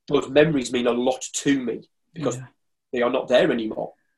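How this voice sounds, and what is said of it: Emotional voice breaking up. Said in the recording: “my voice is breaking up because I get a bit passionate about this”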